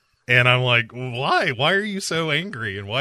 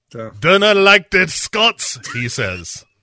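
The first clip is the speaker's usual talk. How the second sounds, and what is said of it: Poor put-on Scottish accent. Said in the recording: “why is your accent so bad”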